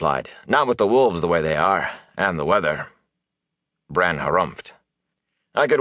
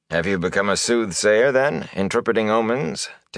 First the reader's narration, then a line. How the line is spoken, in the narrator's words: Tam asked dryly